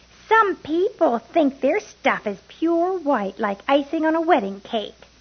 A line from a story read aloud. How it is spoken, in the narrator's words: Coco raised her voice and said